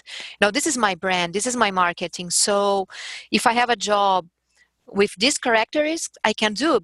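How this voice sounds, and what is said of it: Strong Brazilian accent in English. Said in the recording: “when I speak English with strong Brazilian accent.”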